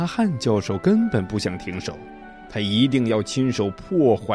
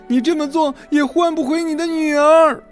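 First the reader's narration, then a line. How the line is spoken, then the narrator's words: Shouting. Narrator (Chinese): 他对卡拉汉教授喊道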